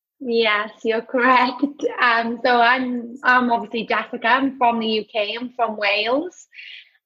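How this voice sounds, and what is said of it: Welsh UK accent. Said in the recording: “the accent that I'm hearing is clearly a UK accent.”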